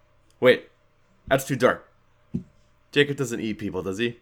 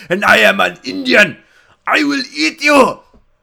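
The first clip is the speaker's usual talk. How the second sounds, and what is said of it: Put-on accent sounding Russian. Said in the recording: “why does the Indian sound Russian? ... I am the master of accents. I just don't know which one I'm doing ever.”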